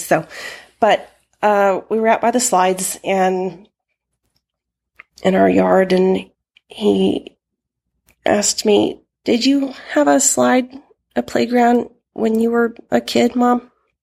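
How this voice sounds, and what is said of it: Slightly hoarse voice. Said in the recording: “my throat is a little hoarse”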